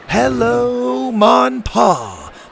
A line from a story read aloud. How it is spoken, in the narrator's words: the other kids shouted back